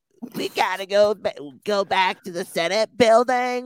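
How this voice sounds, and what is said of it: Imitates a character's voice. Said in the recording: “you're really spot on with that, by the way ... That's actually really good ... really good”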